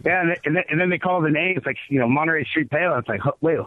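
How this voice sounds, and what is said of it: Hoarse, nearly lost voice. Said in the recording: “as you can hear in my voice, I still can barely talk right now... I lost my voice.”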